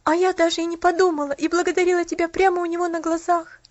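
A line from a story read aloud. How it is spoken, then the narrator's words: Sobbing. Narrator (Russian): всхлипнула Поллианна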